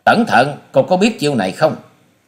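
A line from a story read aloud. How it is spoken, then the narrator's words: Loud shout. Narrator (Vietnamese): Hòa sĩ Kiệt quát to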